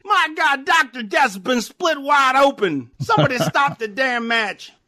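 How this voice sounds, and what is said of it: Imitates another person's voice. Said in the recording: “your Jim Ross impression”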